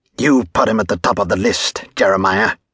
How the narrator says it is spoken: Cole spat

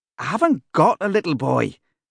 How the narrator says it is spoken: snaps Bert

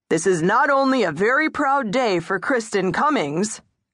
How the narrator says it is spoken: Kurt McElvoy bellowed into the microphone, causing a horrible squeal

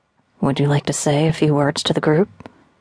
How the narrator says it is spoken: I continued in the same low voice

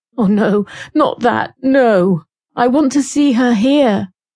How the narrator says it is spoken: in a stammering, frightened voice

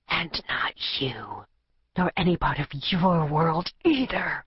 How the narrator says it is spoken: she whispered through clenched teeth

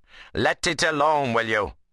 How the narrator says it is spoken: Adam called out

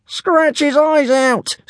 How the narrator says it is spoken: screeched Brightclaw

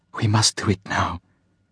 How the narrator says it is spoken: whispered

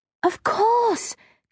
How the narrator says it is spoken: Kirsty cried

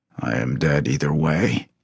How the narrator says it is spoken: he murmured

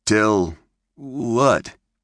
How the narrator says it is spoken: stammered Clint

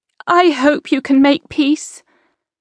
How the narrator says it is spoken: Isabel said anxiously

